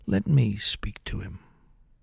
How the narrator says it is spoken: said quietly

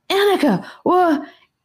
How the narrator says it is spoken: gasped

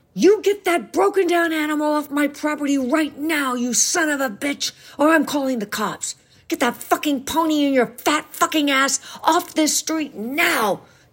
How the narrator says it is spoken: yelled in his fury

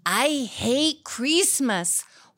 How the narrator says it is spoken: Juanita cried as she ran

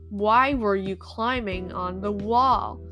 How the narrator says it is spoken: the man asked again sternly, this time slowly

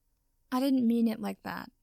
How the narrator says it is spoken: Potter sighed

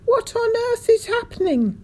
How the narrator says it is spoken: shrieked

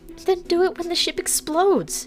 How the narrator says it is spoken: cried

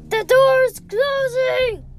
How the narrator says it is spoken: Squishy yelled, sounding like a child's yell

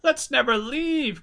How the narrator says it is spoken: cried Charlene

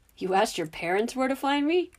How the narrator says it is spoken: The laughter in Harry's voice was now much clearer

